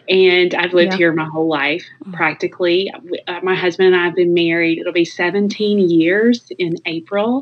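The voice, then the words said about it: Southern US accent. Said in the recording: “Southern accent”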